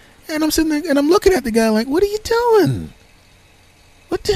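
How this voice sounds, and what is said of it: Usual voice. Nothing is said of it.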